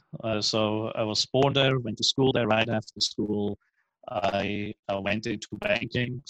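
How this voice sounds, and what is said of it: Swiss accent. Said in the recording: “You have an accent. People can tell you're maybe not originally from America ... that strange accent is from a country called Switzerland”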